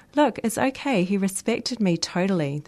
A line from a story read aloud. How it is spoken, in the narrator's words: the girl said